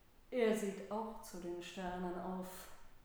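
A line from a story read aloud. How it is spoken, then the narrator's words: Plain. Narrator (German): sagte Rubin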